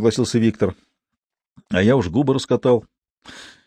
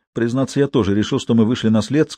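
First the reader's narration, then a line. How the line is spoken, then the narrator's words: Plain. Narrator (Russian): сказал Максимов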